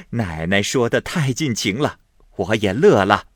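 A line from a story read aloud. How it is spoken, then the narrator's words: Old nurse laughing. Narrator (Chinese): 赵嬷嬷笑道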